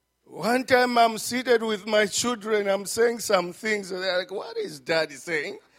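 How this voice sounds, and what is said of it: Zambian-accented English. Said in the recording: “From Zambia, when I speak, you can catch my accent.”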